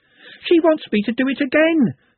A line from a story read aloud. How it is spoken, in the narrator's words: she panted